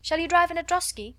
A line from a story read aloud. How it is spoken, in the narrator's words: cried another